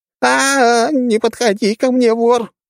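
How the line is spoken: Sudden scream. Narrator (Russian): внезапно закричала женщина

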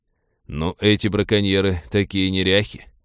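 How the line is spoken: Mutter. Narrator (Russian): пробормотал Винни

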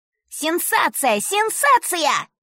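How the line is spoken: Shouting newsboy. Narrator (Russian): кричал мальчишка-газетчик

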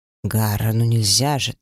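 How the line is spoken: Sighing. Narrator (Russian): так вздохнул Кэл Тирель

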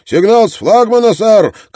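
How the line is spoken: Lookout's shout. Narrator (Russian): крикнул вперед смотрящий

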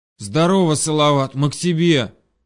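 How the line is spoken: Hoarse. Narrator (Russian): прохрипел Денис

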